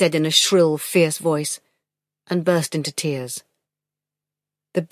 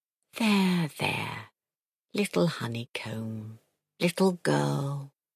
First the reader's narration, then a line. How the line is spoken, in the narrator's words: the husky murmur in the deep hollow of his chest